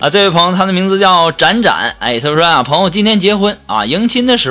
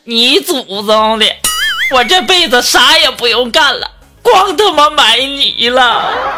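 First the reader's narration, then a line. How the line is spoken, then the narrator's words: Crying and cursing. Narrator (Chinese): 蚂蚁呀一边哭一边骂呀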